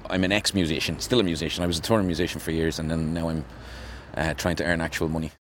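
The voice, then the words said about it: Dublin Irish accent. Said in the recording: “I'm a Dublin man, obviously. This accent wasn't licked up off the ground.”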